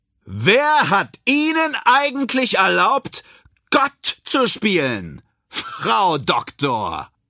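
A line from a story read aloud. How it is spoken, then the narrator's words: Loud public shout. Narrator (German): So laut, dass es alle hören können, ruft er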